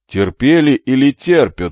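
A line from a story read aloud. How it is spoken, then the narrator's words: Stern question. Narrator (Russian): строго переспросил он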